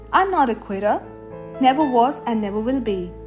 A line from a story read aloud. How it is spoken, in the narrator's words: said sternly